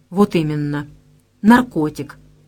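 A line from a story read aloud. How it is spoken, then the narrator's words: Calm answer. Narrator (Russian): ответила Вера спокойно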